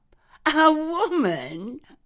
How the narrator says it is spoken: I laughed

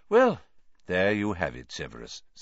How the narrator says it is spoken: said Dumbledore calmly

